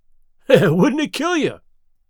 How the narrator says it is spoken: He cried

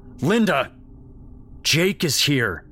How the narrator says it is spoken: his dad bellowed

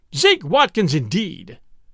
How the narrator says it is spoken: exclaimed

